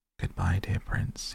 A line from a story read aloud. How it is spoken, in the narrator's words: he murmured